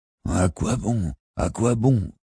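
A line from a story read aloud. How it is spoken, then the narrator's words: Grumbled. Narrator (French): grommela Robin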